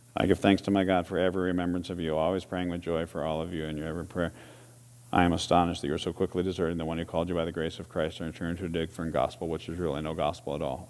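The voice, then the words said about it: Flat monotone reading voice. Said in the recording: “Mr. Monotone. Mr. Monotone ever read your Bible for you?”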